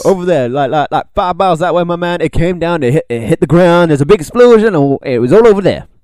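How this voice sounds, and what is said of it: Shifting, unidentifiable put-on accent. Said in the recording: “My voice went through a lot of changes then. I don't know what I was aiming at... I can't pinpoint what accent you were trying to... It just went wild... It was just bad.”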